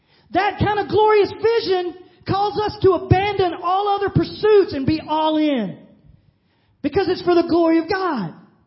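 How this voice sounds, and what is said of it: Yelling with enthusiasm. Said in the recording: “I'm yelling at you guys with a little bit of extolling going on, a little enthusiastic praise ... That was enthusiasm.”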